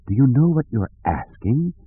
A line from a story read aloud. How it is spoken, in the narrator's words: said in a soft, pleading voice